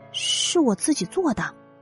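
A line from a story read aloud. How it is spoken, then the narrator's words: Soft-spoken boy. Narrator (Chinese): 小男孩轻声的说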